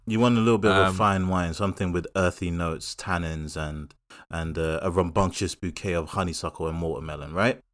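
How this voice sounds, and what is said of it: Mock wine connoisseur voice. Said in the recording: “my connoisseur voice”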